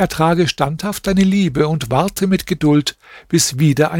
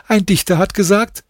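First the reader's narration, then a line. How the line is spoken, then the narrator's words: Laughing. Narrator (German): sagte sie lachend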